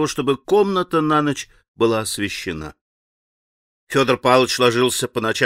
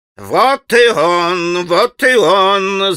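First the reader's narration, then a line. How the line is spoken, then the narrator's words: Overjoyed yelling. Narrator (Russian): завопил Федор Павлович, вдруг страшно обрадовавшись Алеше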